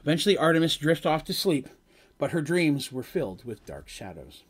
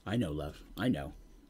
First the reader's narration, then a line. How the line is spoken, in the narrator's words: Draven replied